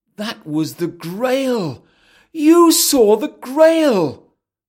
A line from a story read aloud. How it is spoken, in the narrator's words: Arthur exclaims